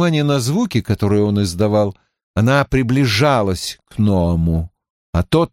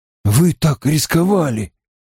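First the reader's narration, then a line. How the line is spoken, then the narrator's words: Breathless exhale. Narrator (Russian): выдохнул Перин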